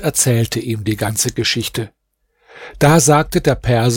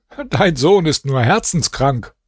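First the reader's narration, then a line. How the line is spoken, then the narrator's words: Laughing speech. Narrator (German): lachte und sagte zu seinem Vater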